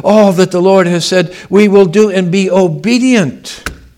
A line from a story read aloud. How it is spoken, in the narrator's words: cried out